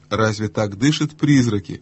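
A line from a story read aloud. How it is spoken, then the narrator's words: Plain. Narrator (Russian): спросил его голос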